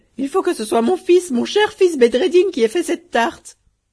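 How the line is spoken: Crying out. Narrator (French): s'écria-t-elle

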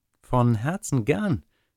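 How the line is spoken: Plain. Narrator (German): sagte das Schneiderlein

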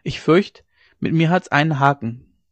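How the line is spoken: Calling out. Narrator (German): rief er ihm entgegen

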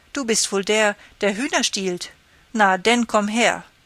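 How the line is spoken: Calling out. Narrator (German): ruft er

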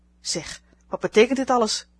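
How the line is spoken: Old woman calling out. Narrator (Dutch): riep de oude dame

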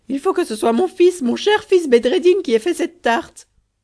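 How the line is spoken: Exclaimed. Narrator (French): s'écria-t-elle

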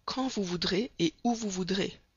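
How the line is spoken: Plain. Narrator (French): répondit l'Américain

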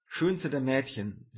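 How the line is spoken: Plain. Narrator (German): sagte er

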